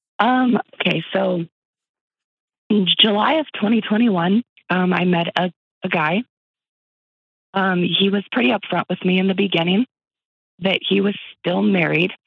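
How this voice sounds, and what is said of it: Hoarse, fading voice. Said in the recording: “losing my voice this morning”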